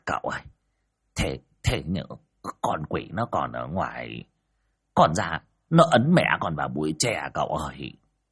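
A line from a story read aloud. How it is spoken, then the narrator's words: Whimpering, near tears. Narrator (Vietnamese): ông Đồng sực nhớ ra điều gì, nhìn cậu Tẩy mà mếu máo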